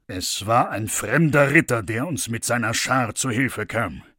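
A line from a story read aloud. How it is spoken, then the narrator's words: Plain, king. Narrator (German): sagte der König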